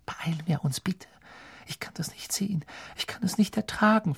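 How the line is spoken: Whispered. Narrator (German): flüsterte Hermine

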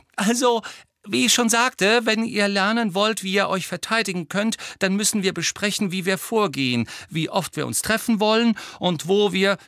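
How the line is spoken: Very high-pitched voice. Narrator (German): sagte Hermine wieder mit sehr hoher Stimme

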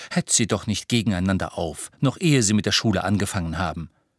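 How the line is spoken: Half stern, half amused. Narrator (German): sagte Hermine halb streng, halb belustigt

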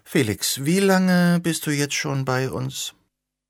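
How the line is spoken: Deep-sighing question. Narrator (German): seufzte abgrundtief und fragte

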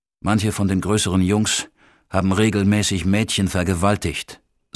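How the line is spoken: Plain. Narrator (German): sagte ich

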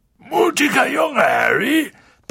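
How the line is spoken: Booming, gruff. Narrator (German): polterte Hagrid

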